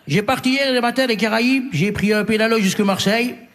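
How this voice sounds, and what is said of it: Put-on Martinican French accent. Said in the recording (French): “Il a un accent martiniquais.”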